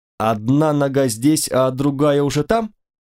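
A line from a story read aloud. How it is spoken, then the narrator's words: Low booming drone. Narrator (Russian): Он прогудел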